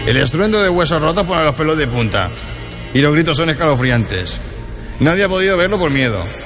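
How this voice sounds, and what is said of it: Gradually slipping into a gitano-style accent. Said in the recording (Spanish): “Te va agitanando, ¿eh? ... Va cogiendo el acento de Chorromoco, sí. De Huesca.”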